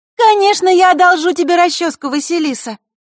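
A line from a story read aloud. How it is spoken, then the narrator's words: Suddenly loud. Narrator (Russian): неожиданно громко произнесла подруга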